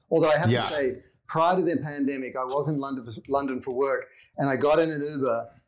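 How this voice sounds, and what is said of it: Australian accent. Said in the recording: “you've still got your Aussie accent pretty much intact even after all those years”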